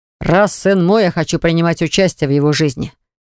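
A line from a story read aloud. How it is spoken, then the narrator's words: Stern. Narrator (Russian): заявил Баграт строго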